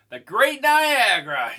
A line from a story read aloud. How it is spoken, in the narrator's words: he shouted